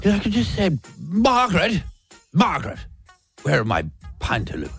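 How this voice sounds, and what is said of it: Put-on old man accent. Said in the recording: “What accent are we doing today? ... Whatever this one is. And I've often thought if I turn into an old man overnight, I wouldn't mind this accent.”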